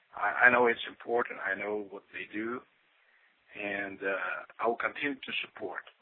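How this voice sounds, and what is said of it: Brazilian accent in English. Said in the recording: “my Brazilian accent”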